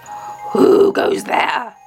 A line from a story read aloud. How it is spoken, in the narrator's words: roared the troll